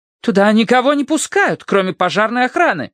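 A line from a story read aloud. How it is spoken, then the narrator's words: Indignant declaration. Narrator (Russian): заявила она возмущенно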